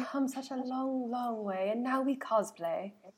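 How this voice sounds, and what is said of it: Attempted British accent. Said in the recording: “That was the best British accent you're going to get from me”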